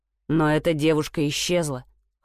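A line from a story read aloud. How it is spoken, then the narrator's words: Cold, curt. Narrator (Russian): холодно отрезал он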